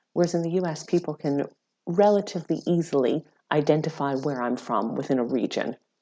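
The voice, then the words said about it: American accent. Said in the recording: “people will sometimes ask me about my accent. And they will often say, I know you're American”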